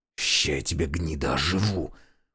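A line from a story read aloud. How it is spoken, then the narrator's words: Hissed. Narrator (Russian): прошипел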